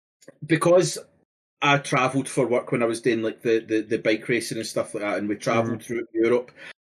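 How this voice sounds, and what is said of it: Glaswegian Scottish accent. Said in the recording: “the Glaswegian accent is like a low, fast, droning, like, language or accent”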